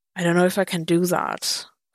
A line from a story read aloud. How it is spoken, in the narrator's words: Clint sighed